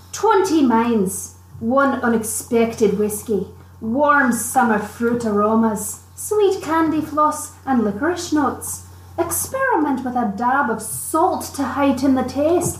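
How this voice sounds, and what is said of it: Attempted Scottish accent. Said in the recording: “I wonder if I can do a Scottish accent. ... I can try to do a Scottish accent. I just need to bring up my inner Merida.”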